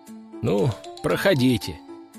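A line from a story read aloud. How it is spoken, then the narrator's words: Sighing. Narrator (Russian): вздохнул я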